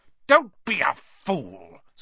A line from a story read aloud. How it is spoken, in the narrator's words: snarled the face